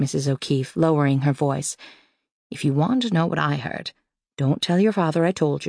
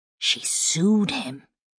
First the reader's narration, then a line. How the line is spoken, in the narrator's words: whispered Mrs